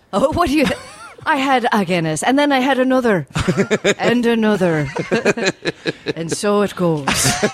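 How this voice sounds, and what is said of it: Put-on Irish accent. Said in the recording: “we're doing Irish accents not Scottish accents ... It's Irish, all right.”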